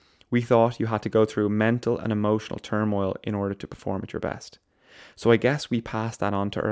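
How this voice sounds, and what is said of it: Usual voice. Nothing is said of it.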